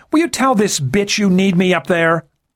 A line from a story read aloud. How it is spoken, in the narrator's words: the blonde shouted over the noise of the engines